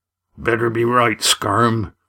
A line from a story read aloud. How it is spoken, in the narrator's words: he said accusingly